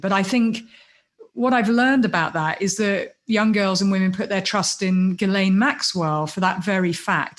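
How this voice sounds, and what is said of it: British accent. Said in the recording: “my accent, because I'm British”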